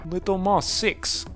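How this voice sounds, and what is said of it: Put-on Russian accent. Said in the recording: “is Russian? ... He is today. ... character voice”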